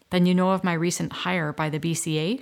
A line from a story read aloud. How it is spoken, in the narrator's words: she asked